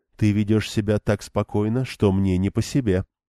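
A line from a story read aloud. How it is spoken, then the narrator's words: Low-voiced remark. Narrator (Russian): вполголоса заметила Бергитта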